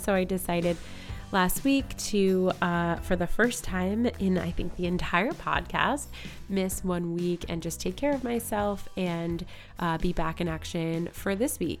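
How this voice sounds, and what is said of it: Voice sounds sick. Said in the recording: “as you can hear in my voice, I've been a little bit under the weather ... as you can hear, I'm still a little bit sick”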